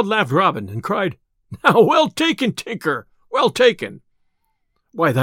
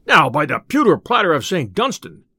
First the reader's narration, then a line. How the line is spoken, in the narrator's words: cried the tinker